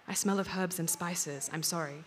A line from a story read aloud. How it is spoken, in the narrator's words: She whispered to me